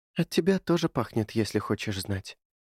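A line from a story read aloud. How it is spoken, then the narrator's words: Whisper. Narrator (Russian): шепнула она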